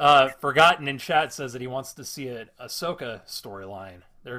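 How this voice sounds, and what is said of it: Usual voice. Nothing is said of it.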